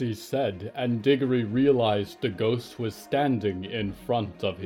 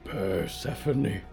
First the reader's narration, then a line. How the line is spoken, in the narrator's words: the instrumentalist whispered